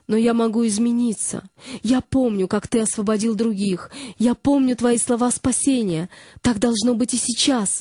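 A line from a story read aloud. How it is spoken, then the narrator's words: Shout. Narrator (Russian): закричала она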